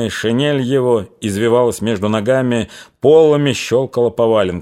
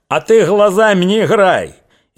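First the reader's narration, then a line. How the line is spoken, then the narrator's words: Furious yell. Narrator (Russian): Кошевой то ли от тихого его голоса, то ли еще от чего взбесился, заорал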